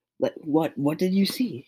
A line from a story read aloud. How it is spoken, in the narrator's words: Ryuji exclaimed